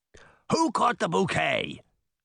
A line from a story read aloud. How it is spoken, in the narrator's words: Titan roared